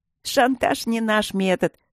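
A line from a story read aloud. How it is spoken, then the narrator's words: Spoken through laughter. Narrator (Russian): сказала она сквозь смех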